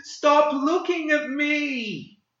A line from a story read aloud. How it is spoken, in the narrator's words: The boy's expression flashed from pain to anger as he shrieked